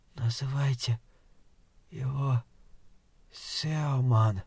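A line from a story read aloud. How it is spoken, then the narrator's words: Rasped. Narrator (Russian): прохрипела Сюзанна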